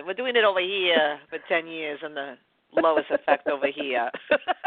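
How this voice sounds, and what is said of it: Put-on New York accent. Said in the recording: “I'm going to put my New York accent.”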